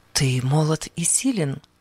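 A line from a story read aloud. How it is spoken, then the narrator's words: Whispering waves. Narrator (Russian): казалось, шептали ему волны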